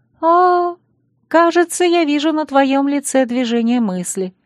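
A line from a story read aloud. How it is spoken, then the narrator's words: Sister's sad wry chuckle. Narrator (Russian): грустно усмехнулась несносная сестренка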